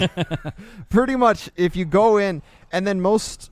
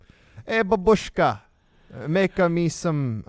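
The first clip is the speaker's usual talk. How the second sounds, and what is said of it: Put-on Italian accent. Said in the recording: “now I'm doing an Italian accent”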